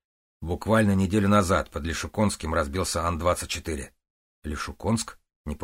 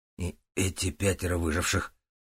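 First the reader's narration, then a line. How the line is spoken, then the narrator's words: Hoarse croak. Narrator (Russian): прохрипел Стас, так как у него от услышанного пропал на время голос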